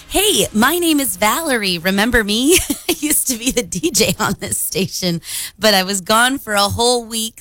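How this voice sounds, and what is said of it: Slightly raspy voice. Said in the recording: “my voice sounds a little raspy this morning too”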